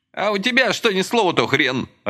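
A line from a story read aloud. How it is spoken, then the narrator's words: Snapped. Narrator (Russian): Огрызнулся Ромка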